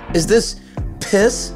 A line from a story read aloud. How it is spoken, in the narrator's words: shouted